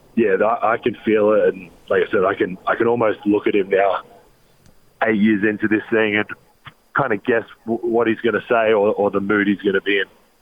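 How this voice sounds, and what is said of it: Australian accent. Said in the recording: “that was ... Australian accent ... it's your Australian accent, and so we understand you talk funny in our country”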